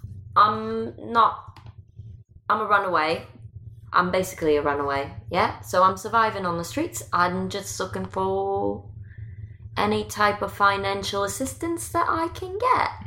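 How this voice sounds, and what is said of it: Accent from across the pond. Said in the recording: “You sound like you're from across the pond.”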